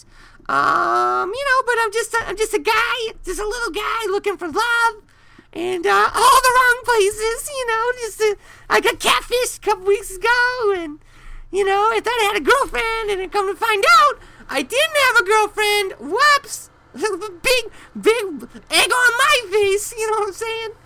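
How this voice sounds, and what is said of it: Very high-pitched character voice. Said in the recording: “I have a very high voice.”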